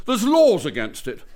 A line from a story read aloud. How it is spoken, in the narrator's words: he exclaimed wildly